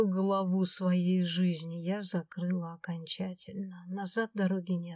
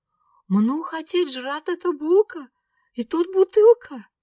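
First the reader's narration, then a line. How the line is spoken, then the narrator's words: Shouting. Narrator (Russian): кричала Аленка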